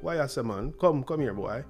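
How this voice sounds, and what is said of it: Put-on Jamaican accent. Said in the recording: “probably the coolest accent in the West Indies ... it wasn't to try to sound like I was from New York. It was act like a bad boy from Jamaica.”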